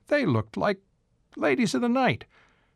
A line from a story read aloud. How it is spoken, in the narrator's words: Grandpa Waukaw exclaimed